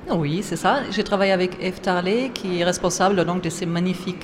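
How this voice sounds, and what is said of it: Slight German accent in French. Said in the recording (French): “j'ai des origines allemandes, hein. Si vous entendez mon accent, c'est pas corse”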